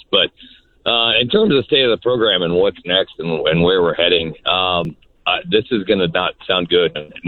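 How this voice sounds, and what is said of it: Slightly hoarse voice. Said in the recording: “Still a little hoarse, almost done losing my voice.”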